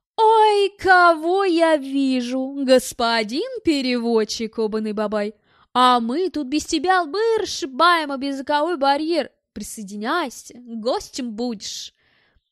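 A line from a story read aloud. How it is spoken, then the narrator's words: Joyful drawl. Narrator (Russian): Тенгиз радостно протянул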